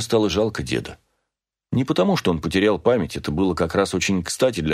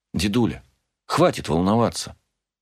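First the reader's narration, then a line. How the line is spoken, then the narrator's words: Soft, gentle. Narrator (Russian): мягко сказала я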